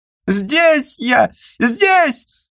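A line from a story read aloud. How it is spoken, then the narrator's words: Extremely loud shout. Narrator (Russian): крикнул косой, как 100 тысяч зайцев вместе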